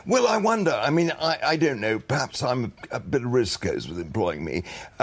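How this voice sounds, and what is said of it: Posh English accent. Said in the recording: “you've got a posh accent ... you've got a lovely posh accent.”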